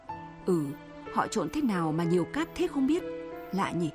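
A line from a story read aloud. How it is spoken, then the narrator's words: Dazed muttering. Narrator (Vietnamese): Sáu Nguyệt bần thần, nói lẩm bẩm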